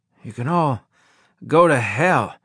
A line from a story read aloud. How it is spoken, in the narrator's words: I said in a raspy voice